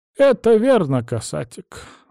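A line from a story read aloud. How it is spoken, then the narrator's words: Sigh. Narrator (Russian): вздохнула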